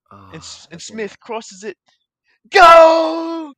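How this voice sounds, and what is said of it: Put-on British accent, announcer style. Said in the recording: “put on ... the British accent”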